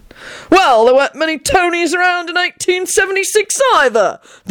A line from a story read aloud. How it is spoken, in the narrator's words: the old man spluttered